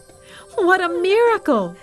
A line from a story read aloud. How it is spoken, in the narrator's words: the people shouted